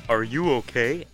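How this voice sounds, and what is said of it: Cartoon character voice. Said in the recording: “That's the like best big impression I've ever heard”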